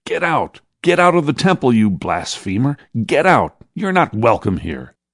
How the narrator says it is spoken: shouted another

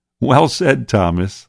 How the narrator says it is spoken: laughed Peter

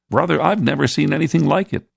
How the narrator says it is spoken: exclaimed John

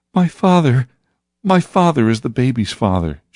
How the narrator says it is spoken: she sobbed and sobbed

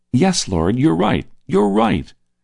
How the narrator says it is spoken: he said excitedly

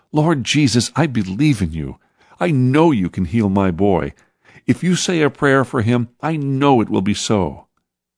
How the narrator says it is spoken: pleading

